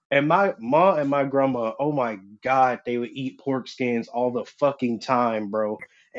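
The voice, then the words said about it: Rural country accent. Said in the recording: “I'm from the country. For first-time listeners, you might be able to hear it in my voice. I don't know if my accent has faded or got stronger since I moved from the country.”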